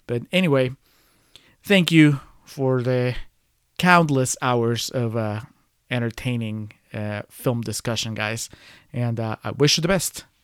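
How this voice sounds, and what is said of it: Speaks with a noticeable accent. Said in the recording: “I'm pretty sure you could tell with the accent.”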